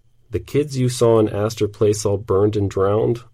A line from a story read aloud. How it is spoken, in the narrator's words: I asked